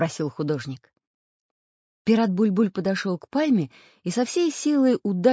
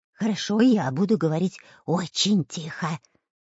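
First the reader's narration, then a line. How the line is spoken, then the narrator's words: Whisper. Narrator (Russian): прошептал Дырка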